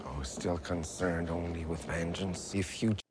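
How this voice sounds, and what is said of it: Slight French accent. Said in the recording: “Every once in a while, something he says has that French accent come out.”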